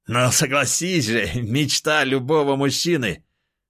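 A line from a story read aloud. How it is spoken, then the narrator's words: Loud laughing. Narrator (Russian): хохотал тот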